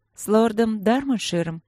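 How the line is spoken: Tired female. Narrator (Russian): устало уточнила она

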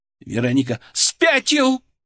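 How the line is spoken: Shouting. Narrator (Russian): Теперь она кричала

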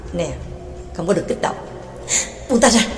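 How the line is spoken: Whisper. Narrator (Vietnamese): thì thào

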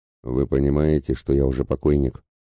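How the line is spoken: Gloomy question. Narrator (Russian): мрачно вопросил тот

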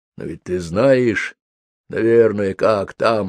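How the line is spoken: Mumbled. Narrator (Russian): пробормотал

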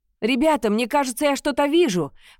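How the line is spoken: Shout from lookout above. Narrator (Russian): прокричал Лиам, который сидел в вороньем гнезде

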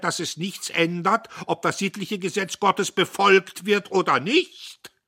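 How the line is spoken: Exclaimed. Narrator (German): rief er

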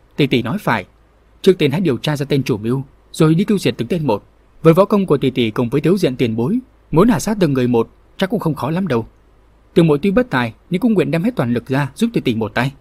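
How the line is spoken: Serious reply. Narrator (Vietnamese): Vương Mai … nghiêm nghị rồi đáp

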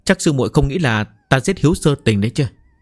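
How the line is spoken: Startled, laughing loudly. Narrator (Vietnamese): Trung Nhạc khựng người cười lớn

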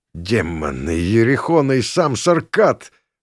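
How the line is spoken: Forced-out strained words. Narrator (Russian): выдавил я

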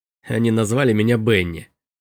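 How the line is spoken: Snorting. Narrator (Russian): фыркнул Робби

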